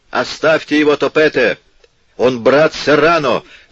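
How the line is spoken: Shouting. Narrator (Russian): закричал Олоцага

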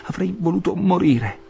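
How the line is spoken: Exclamation. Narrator (Italian): esclamò

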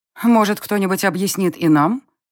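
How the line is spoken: Irritated interruption. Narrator (Russian): Раздраженно вмешалась в наш разговор бывшая монашка

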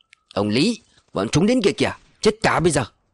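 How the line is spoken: Angry hiss through teeth. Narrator (Vietnamese): Tên Thìn gã nghiến chặt răng giận dữ rít lên

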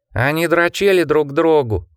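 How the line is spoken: Nasal shout. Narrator (Russian): гнусаво закричал Сонни

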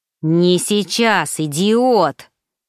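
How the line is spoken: Angry snap. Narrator (Russian): Злобно кинул ему второй

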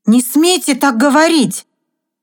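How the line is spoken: Shout. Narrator (Russian): крикнула Вирджиния

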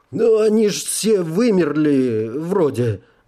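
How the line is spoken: Uncertain addition. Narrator (Russian): добавил он неуверенно

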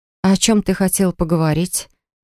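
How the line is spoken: Soft question. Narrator (Russian): Мягко спросила

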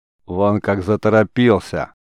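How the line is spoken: Laughing loudly. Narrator (Russian): продолжал хохотать им вслед Гордон

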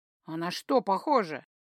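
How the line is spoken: Mild snapping retort. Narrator (Russian): почти беззлобно огрызнулся

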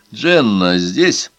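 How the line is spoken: Laughing. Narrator (Russian): Тот, кого другие называли Джером, рассмеялся

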